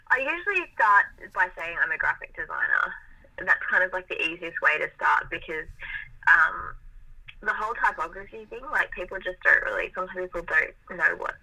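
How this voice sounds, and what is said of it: Blocked-up, weird-sounding voice. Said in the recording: “my voice sounds really weird right now ... it's quite blocky and like kind of I don't know, it's a bit gross”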